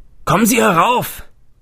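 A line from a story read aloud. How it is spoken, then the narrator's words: Man calling from above. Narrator (German): rief ein Mann von oben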